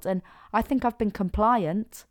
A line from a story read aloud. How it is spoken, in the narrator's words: Dennis blurted out